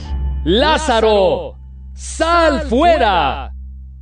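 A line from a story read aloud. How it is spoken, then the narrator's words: Loud exclamation. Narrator (Spanish): exclamó Jesús con fuerte voz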